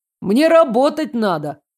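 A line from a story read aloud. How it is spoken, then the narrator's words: Taxi driver shouting. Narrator (Russian): крикнул таксист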